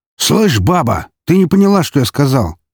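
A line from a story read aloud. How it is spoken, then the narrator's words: Guard's harsh bark. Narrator (Russian): рявкнул охранник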